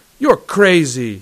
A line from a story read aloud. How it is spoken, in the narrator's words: he cried fiercely